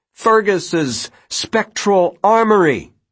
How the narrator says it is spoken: she shouted

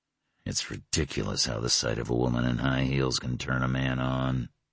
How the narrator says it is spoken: he murmured

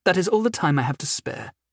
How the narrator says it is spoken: she said, her voice cold and dismissive

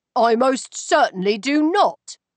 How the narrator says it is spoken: he returned indignantly

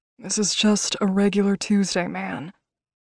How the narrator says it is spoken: he groaned sarcastically

